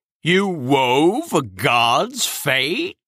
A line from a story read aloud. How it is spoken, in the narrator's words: Cronus asked in a mortified tone